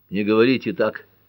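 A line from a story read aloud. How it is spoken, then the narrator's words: Hoarse, demanding. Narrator (Russian): хрипло потребовал Джим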